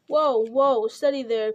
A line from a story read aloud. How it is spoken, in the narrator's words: cried the old man